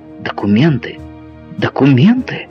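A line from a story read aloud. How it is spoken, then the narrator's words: Wife's exclamation. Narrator (Russian): воскликнула его жена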